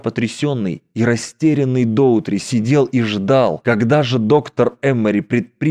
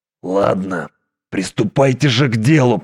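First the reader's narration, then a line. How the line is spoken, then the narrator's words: Stunned grumbling. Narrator (Russian): проворчал Доутри, оглушенный потоком событий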